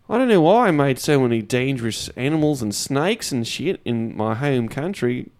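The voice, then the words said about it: Put-on Australian accent. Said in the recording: “God's from Australia, by the way. Guess you couldn't tell from the accent.”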